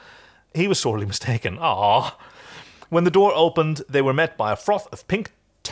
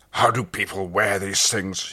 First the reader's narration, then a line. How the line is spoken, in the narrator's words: He growled